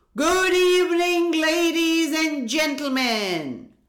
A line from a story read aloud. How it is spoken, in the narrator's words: the ringmaster shouted with his huge booming voice